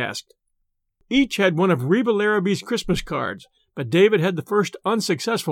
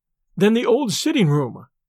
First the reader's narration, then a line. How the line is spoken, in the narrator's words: exclaimed David